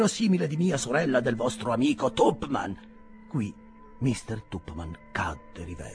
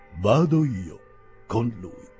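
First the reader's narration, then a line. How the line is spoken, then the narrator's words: Plain. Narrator (Italian): disse Mr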